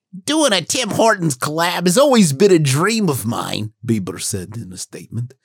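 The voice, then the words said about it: Put-on imitation voice. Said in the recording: “let me do my babe voice”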